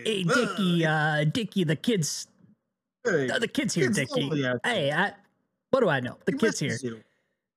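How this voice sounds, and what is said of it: Exaggerated mobster voice impression. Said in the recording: “Bill Hader do a mobster impression ... it'd be him going like, "Hey, whoa, hey.”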